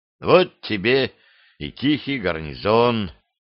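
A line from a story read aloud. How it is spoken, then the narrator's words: Sighing. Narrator (Russian): вздохнул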